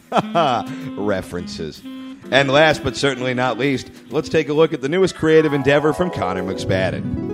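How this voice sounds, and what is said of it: Stock radio announcer voice. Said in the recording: “stock announcer voice”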